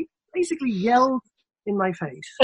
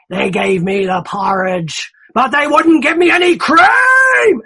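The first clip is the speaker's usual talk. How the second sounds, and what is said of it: Imitates another person's voice, shouting. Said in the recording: “I'm sorry about the accent”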